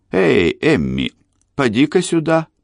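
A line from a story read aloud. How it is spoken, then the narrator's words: Shout. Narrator (Russian): он крикнул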